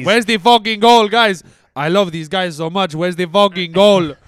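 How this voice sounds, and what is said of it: Impression of Mikel Arteta. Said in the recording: “Arteta impression”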